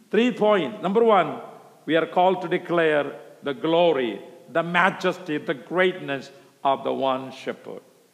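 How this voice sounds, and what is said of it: Non-native English accent. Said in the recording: “Because of my accent”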